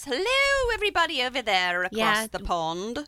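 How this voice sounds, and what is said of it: Poor put-on British accent. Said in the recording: “Terrible British accent.”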